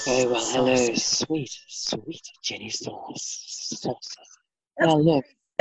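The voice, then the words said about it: Put-on sexy, seductive voice. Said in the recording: “sexy voice. ... Sexy voice.”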